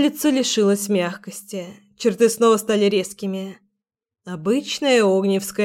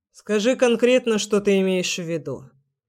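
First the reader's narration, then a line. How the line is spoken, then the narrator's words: Cold. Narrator (Russian): сказал он холодным тоном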